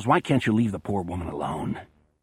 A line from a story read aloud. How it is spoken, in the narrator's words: Fred growls